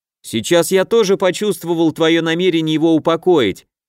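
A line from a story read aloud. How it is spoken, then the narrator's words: Sudden shout. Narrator (Russian): немедленно крикнул Костя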